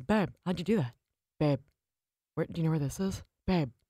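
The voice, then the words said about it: Imitates another person's voice. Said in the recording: “It's scary how accurate that impression ... is.”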